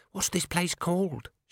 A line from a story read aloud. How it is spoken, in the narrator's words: she whispered